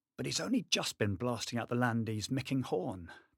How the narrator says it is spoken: Bannister muttered to Millington

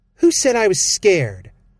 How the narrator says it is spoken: Val snapped

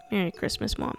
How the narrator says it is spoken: he muttered

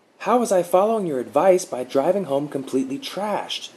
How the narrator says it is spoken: Mark blurted

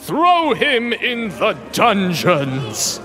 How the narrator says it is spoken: the emperor bellowed

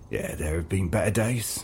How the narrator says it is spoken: he breathed

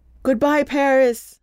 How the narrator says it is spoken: he shouted into the boy's ear

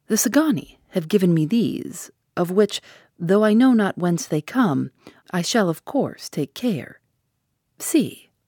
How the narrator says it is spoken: said in his smoothest voice

